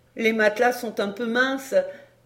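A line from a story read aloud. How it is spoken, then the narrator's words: Laughing. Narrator (French): dit en riant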